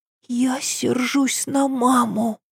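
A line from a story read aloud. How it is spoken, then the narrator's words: Barely audible whisper. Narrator (Russian): прошептала она едва слышно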